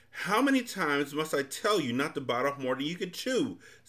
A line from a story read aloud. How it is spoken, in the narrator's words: snapped the undersecretary